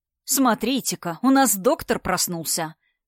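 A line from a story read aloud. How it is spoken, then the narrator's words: Angry. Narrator (Russian): сказал Константин зло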